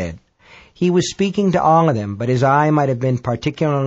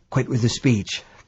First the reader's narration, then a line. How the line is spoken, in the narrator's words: Bob said hoarsely